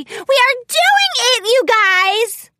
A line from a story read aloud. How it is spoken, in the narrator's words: She squealed in delight